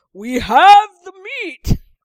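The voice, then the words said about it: Exaggerated deep manly announcer voice. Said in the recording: “in my manliest voice,... like that Arby's commercial”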